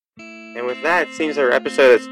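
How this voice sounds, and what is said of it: Electronically altered voice. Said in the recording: “I think I still have that voice changer on.”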